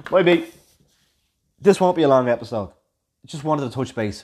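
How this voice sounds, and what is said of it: Deliberately monotone delivery. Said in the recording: “I'm actually deliberately going monotone now.”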